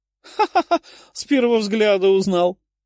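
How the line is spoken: Laughing. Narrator (Russian): рассмеялась императрица

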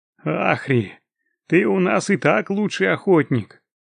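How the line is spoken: Chuckling. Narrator (Russian): хохотнул Конральд

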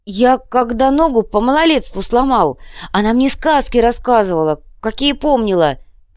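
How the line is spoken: Frightened sobbing. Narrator (Russian): всхлипнул перепуганный маркер

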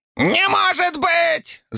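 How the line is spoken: Squeaky. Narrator (Russian): запищал Фанатюк

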